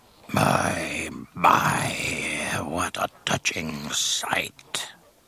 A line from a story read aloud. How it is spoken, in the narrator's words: Jabba purred